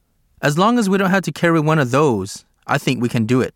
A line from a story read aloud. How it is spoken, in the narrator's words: I said